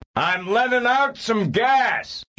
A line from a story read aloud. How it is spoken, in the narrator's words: he shouted to Serafina Pekela